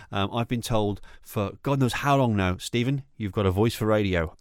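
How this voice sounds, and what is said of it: Northwest English accent. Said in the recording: “I am from the Northwest ... I'm referring to the UK ... through the accent”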